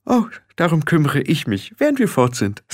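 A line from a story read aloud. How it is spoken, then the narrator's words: Cheerful. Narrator (German): sagte Frau Grat fröhlich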